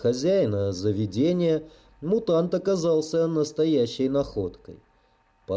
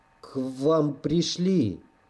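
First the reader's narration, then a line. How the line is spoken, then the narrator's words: Strained, frightened utterance. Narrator (Russian): Выдавил из себя бледный от испуга официант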